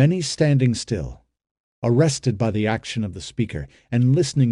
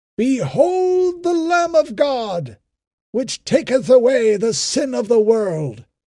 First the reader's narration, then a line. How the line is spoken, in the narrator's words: the Nazarite cried in a loud voice